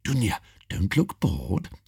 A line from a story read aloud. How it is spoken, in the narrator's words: They whisper